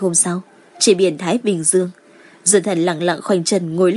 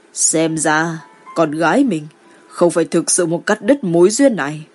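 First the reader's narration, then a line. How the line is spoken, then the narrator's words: Quiet smiling mutter. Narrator (Vietnamese): Ninh Quang Diệu mỉm cười, nhỏ tiếng lẩm bẩm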